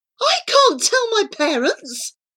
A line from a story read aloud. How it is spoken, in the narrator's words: cried Charlie